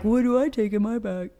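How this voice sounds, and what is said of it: Imitated clueless dad voice. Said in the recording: “That's my best dad voice”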